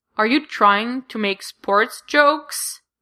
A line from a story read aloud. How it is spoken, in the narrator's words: Jack groans out